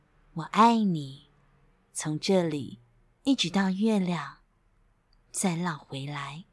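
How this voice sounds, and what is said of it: Soft, quiet, smiling whisper. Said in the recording (Chinese): “小声的、轻轻的微笑着说”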